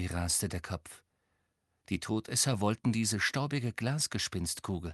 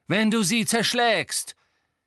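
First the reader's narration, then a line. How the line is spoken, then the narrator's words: Bellowed angrily. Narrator (German): brüllte Lucius Malfoy die Frau an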